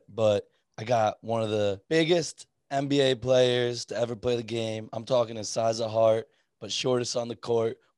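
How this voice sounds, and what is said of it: Slightly hoarse, partly lost voice. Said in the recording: “I lost my voice a little bit”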